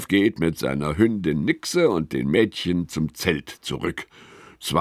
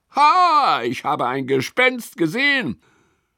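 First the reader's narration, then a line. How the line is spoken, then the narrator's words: Sudden call. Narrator (German): Auf einmal ruft er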